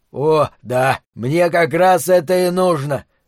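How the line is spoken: Hoarse wheeze. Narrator (Russian): прохрипел пузатый

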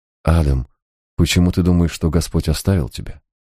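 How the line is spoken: Gentle question. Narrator (Russian): мягко спросил

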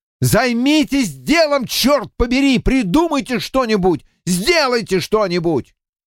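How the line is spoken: Yelled. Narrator (Russian): я заорал

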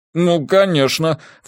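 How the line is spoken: Snort. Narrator (Russian): фыркнул Джеспер

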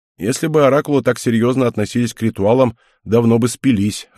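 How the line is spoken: Laughing. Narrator (Russian): рассмеялся Герард

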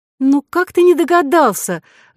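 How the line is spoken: Exclaiming woman. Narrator (Russian): воскликнула Вероника

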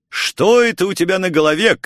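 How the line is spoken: Shouted. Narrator (Russian): крикнул я

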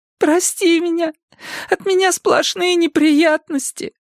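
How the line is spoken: Sobbing. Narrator (Russian): всхлипывала Мадда

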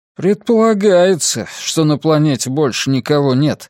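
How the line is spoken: Gloomy remark. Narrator (Russian): мрачно заметил Ратти из вертушки

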